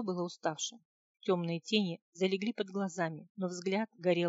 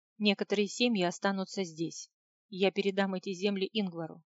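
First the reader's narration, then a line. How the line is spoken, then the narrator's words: Plain. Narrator (Russian): ответил мужчина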